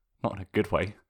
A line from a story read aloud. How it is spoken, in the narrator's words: Toph pipes up